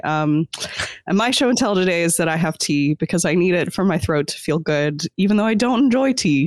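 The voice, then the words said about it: Sick-sounding voice. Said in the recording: “I'm kind of sick, so if I sound weird”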